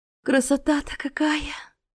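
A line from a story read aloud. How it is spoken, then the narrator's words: Breathless admiration. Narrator (Russian): выдохнула Астра, любуясь кораблем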